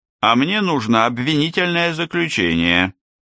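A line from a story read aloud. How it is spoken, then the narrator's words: Displeased grumbling. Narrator (Russian): недовольно ворчал Ярбер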